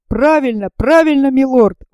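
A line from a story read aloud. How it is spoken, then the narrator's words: Exclaiming. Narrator (Russian): воскликнул Джон Манглс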